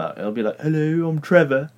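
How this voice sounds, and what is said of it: Put-on British accent. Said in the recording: “you went and did an English accent ... I do a great British accent”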